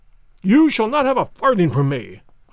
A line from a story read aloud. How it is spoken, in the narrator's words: I cried